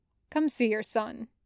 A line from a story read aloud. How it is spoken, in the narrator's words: she says